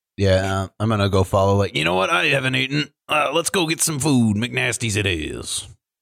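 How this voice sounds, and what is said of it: Put-on Southern accent. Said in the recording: “I have developed a southern accent out of nowhere.”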